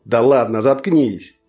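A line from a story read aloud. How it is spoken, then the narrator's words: Growl. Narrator (Russian): прорычал Коринг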